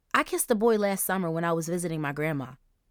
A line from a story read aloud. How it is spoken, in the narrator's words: Angel lied quickly